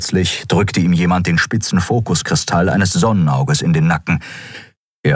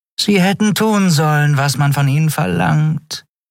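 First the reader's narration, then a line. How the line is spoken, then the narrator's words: Purring from behind. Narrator (German): schnurrte Shi'ar hinter seinem Rücken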